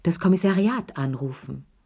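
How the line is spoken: Plain. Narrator (German): sagte Lea

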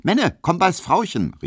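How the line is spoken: Called out. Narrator (German): rief

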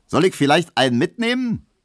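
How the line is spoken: Cheerful man calling out. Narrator (German): rief der fröhliche Leichenkutscher

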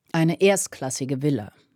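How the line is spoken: Plain. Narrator (German): sagte George

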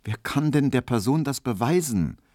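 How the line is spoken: Plain. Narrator (German): sagte Emil Kubinke

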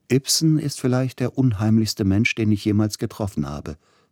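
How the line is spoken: Plain. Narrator (German): sagte Grieg

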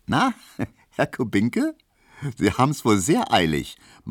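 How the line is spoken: Laughing, teasing. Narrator (German): meinte die und lachte

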